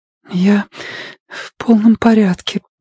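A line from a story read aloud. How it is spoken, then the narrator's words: Trembling voice, lying. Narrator (Russian): дрожащим голосом солгала Робин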